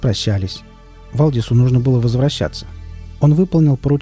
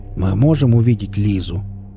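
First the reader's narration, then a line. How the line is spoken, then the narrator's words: Polite question. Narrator (Russian): вежливо спросил Велес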